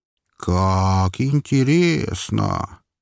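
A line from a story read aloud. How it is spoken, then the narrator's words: Lazy drawl. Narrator (Russian): лениво протянул Шарфин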